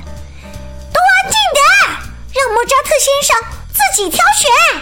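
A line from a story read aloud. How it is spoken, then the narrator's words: Anxious shout. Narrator (Chinese): 他们急了，冲着大家大喊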